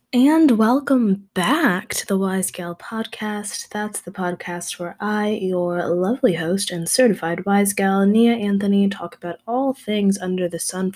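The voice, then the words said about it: Strained, nearly lost voice. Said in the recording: “I don't know if you can hear it in my voice, ... I just have been waking up with like the inability to speak the past few days.”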